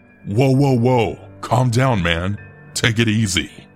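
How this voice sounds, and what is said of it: Taunting voice. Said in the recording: “in a taunting voice”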